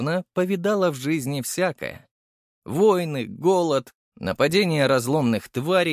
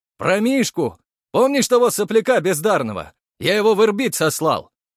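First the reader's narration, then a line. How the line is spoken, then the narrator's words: Heavy-breathing question. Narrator (Russian): громко дыша спросил Архаров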